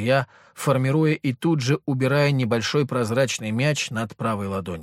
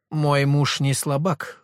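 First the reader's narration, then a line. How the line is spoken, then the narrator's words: Snorting. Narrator (Russian): фыркнула Мария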